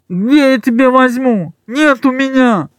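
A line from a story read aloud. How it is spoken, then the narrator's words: Nasal, barely intelligible. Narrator (Russian): Гнусава еле разборчиво ответил ему замотанный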